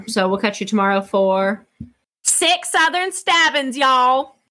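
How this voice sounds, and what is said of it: Put-on Southern American accent. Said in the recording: “That was a good accent. I liked that. ... my Southern accent ... you have a fake Yankee Southern accent”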